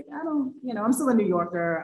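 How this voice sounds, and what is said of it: Put-on New York accent. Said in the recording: “I'm not sure if that was a great New York accent right there.”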